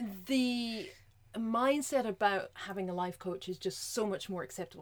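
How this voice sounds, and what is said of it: Usual voice. Nothing is said of it.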